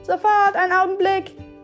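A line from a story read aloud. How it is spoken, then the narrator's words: Shouting back. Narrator (German): schrie Nikola zurück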